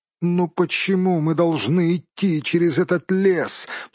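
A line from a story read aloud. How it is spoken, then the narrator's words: Moaning. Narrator (Russian): простонал хоббит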